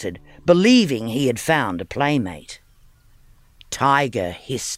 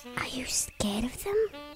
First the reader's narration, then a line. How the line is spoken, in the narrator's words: Pirate whispered